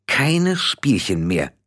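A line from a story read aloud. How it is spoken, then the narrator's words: Hissing. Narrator (German): zischte Tiffany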